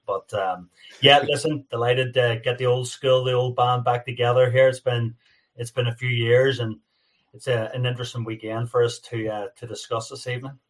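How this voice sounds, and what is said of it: North American-tinged accent. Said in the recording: “The North American accent is absolutely outstanding ... You've definitely got an accent. No doubt.”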